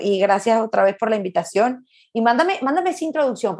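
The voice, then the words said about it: Venezuelan Spanish accent. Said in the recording (Spanish): “con mi acento venezolano ... es venezolana”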